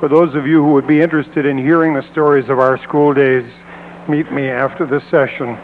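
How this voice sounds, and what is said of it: Hoarse, strained voice. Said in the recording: “I seem to have lost my voice. I sang too loudly at Zion this morning.”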